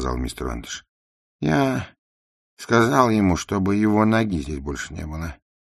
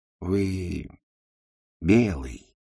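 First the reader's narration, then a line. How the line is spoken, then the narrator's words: Soft speech. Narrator (Russian): мягко сказал Нед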